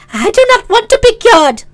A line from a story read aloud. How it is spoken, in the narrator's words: cried the princess angrily